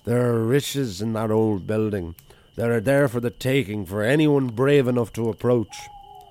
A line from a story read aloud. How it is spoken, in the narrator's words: Paddy Ian Kerrigan slurred